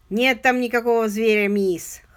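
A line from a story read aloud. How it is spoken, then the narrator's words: Snorting. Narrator (Russian): хмыкнул старший Пек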